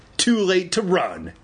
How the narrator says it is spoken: Andy shrieked

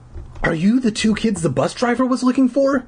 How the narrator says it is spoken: He asked in a shrill, high voice

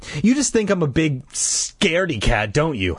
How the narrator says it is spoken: Sabrina giggled

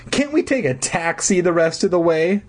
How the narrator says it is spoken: Mark whined

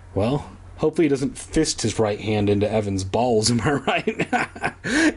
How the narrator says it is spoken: Andy giggled

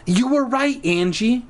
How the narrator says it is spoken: she shrieks like Shrek

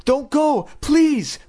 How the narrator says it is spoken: Chris cried

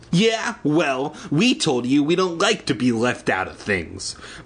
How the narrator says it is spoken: Bobby said, forcing a tough guy sneer

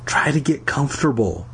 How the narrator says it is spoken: I whispered to Pat

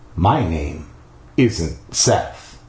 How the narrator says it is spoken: he said softly, so softly I could barely hear him

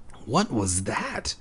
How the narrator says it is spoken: I whispered

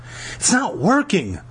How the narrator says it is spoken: Lauren groaned

